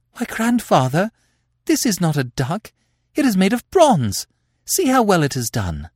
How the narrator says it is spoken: Rosabella exclaimed

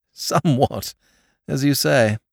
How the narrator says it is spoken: agreed his lordship with a short laugh

